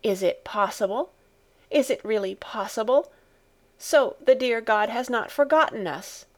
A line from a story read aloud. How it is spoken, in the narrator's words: exclaimed the grandmother